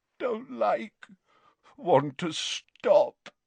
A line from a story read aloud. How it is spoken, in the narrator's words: moaned Dumbledore